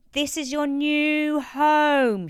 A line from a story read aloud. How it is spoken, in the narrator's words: shouted Marion